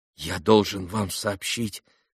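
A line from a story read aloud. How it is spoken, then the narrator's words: Trembling voice. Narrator (Russian): произнес тоже дрожащим голосом Алеша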